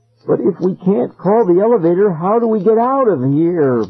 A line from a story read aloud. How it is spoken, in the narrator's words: Ben whined